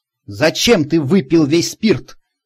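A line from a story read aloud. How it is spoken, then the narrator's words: Angry question. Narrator (Russian): сердито спросил я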